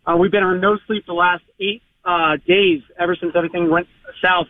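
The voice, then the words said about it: Hoarse voice. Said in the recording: “your listeners can hear how hoarse I am”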